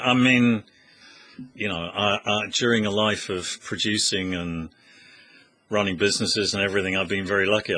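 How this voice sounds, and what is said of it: Slight Australian twang. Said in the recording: “you've got a bit of a twang in your voice as well ... people sometimes say I've got an Australian twang.”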